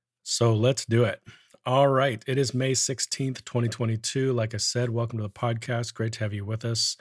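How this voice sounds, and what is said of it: Strange, unwell-sounding voice. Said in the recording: “my voice sounds a little bit strange. It's because it is. It's been one of those weeks, a little under the weather”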